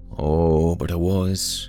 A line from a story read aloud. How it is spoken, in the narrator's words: Tusk purred